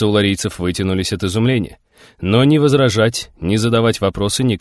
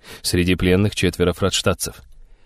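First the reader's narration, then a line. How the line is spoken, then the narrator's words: Quiet. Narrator (Russian): тихо проговорил он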